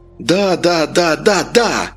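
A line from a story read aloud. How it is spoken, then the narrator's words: Yelled. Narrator (Russian): завопил Вениамин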